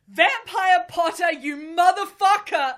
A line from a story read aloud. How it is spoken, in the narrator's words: I yelled